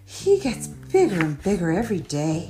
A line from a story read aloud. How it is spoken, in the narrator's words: George's mum sighed